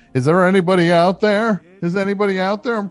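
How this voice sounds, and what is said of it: DJ character voice. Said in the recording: “I did a voice on Fortnite ... there's a DJ in it that gives you advice”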